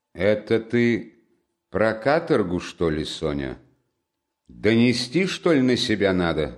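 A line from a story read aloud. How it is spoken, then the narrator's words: Gloomy question. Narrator (Russian): спросил он мрачно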